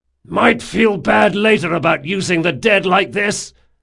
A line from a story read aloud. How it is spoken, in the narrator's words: hollered Jean